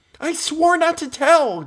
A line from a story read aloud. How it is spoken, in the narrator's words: gasped Meg